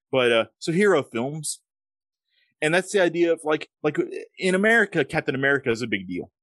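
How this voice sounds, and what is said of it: Thick Southern American accent. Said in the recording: “I've got an accent. I'm from the South in America, so we talk with thick accents”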